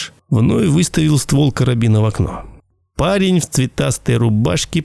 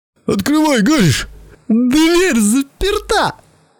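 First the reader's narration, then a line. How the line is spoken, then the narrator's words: Squeaking. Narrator (Russian): пискнул Белли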